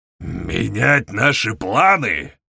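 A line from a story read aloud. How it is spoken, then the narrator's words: Raised deep bass voice. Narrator (Russian): Повысив голос, пробасил собеседник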